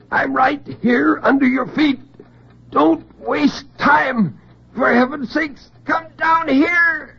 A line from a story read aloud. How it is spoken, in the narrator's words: In terrible silence, he screamed